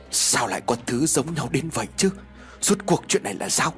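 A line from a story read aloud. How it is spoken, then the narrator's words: Soft, quiet. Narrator (Vietnamese): Ông Vương khẽ nói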